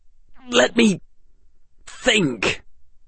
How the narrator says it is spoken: Draco said, his voice coming out in something of a croak

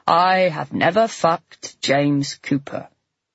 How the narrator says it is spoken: the deliberate malice of her drawling

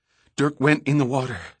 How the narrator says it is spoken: Summer panted

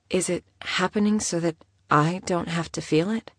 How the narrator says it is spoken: She asked quietly

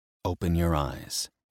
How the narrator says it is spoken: he whispered

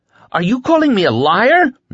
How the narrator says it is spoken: she nearly screamed

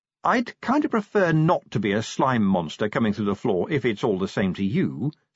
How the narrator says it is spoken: said Angua haughtily

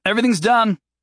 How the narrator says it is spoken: Jason called out

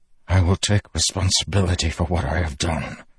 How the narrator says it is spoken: Dalinar whispered

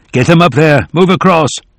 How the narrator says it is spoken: Putnam was shouting

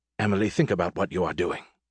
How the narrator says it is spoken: he added in a whisper

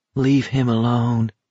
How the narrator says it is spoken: Baker said quietly

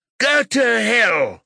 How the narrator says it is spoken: Philip screams

